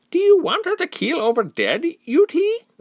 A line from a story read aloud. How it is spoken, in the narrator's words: another woman piped up, concerned